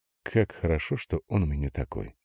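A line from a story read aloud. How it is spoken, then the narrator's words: Quiet, smiling. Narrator (Russian): Тихонько улыбалась Людмила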